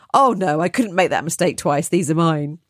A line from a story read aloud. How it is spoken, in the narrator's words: She laughed and said